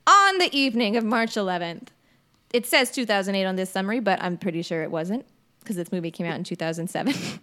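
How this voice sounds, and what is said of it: Posh put-on accent. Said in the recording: “I'm doing the posh accent again.”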